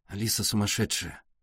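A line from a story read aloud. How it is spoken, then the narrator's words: Muttering. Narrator (Russian): пробормотал Артур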